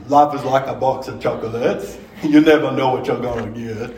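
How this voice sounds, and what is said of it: Forrest Gump character impression. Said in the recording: “I did a pretty good Gump impersonation.”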